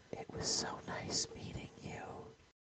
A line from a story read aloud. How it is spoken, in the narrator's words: whisper in the ear